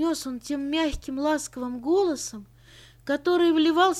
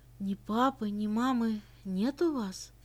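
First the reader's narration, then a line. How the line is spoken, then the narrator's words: Priest's gentler question. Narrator (Russian): еще более ласково задал новый вопрос священник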